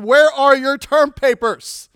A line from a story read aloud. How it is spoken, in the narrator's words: Sproul shouted